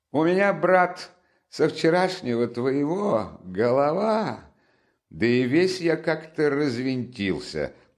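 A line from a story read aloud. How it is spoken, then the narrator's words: Changed tone, laughing. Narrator (Russian): начал он совсем другим тоном, смеясь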